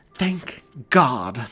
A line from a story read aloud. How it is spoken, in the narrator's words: Mary exclaimed